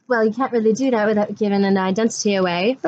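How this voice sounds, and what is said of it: Fake, inconsistent put-on accent. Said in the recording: “I'm only putting on this accent just so you don't know who I am. So, if my accent tends to change throughout the video... a fake, albeit sometimes improvisational, interchanging accent”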